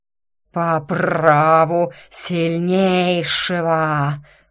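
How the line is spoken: Hiss. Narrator (Russian): прошипел Горыныч

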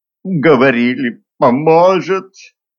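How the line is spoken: Whimpering. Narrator (Russian): проскулила потерпевшая

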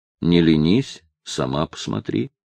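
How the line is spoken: Plain. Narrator (Russian): ответил Степан

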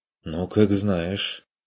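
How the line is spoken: Sighing resignation. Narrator (Russian): вздохнул Курт

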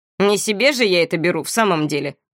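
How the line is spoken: Snort. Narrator (Russian): фыркнул Этьен

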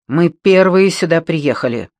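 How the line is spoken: Angry declaration. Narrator (Russian): сердито заявил

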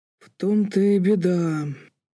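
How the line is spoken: Drawled. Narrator (Russian): протянул Бетфорд

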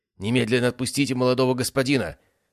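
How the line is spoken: Bellowing big man. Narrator (Russian): заорал старший здоровенный лысый мужик

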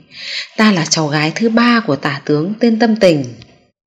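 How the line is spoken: Smiling. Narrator (Vietnamese): hướng Lưu Nguyệt mỉm cười nói

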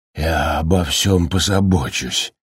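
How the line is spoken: Mutter. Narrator (Russian): пробормотал он

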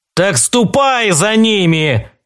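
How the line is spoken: Roaring. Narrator (Russian): взревел Белкис

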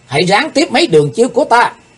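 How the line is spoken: Shrill girl's cry. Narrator (Vietnamese): thiếu nữ bịt mặt thét lên một tiếng lanh lảnh

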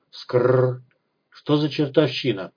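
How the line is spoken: Muttering from behind. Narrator (Russian): пробормотал за спиной Кагор

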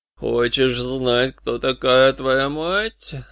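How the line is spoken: Sepulchral voice question. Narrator (Russian): спросил он загробным голосом

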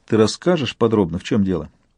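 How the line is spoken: Calm probing question. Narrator (Russian): Яна спросила спокойно, пытливо

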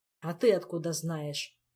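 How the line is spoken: Grumbling. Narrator (Russian): проворчал король

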